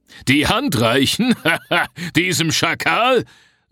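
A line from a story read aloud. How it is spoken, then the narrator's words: Giant's scornful laugh. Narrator (German): lachte der Riese auf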